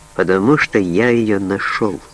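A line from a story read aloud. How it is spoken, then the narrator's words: Quiet. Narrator (Russian): тихо промолвил Саттон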